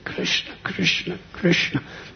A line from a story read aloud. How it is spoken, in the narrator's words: Their voices were so choked up